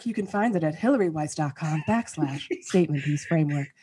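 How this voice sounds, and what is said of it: Put-on radio announcer voice. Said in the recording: “putting on my radio voice”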